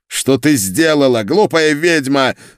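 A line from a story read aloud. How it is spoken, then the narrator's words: Furious spluttering yell. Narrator (Russian): заорал он, брызгая слюной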